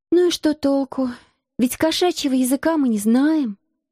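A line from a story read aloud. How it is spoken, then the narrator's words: Sigh. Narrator (Russian): вздохнула я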